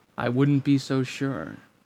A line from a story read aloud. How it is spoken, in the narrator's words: he said evenly